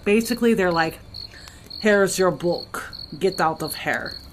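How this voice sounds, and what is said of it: Put-on Russian accent. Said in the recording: “accent. Thank you. ... I don't really do accents very good. Yeah, I do. That was, that was pretty Russian.”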